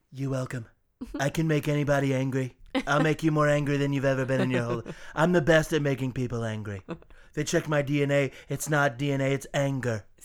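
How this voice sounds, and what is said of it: Donald Trump impression. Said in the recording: “Thanks a lot, Trump. ... I just don't get to ever do that impression.”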